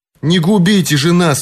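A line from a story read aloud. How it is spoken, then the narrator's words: Exclamation. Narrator (Russian): воскликнул Вилл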